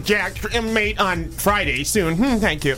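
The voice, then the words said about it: Bad Siri voice impression. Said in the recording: “worst Siri impression”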